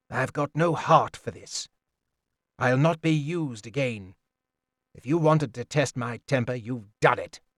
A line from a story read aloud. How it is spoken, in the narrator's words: more quietly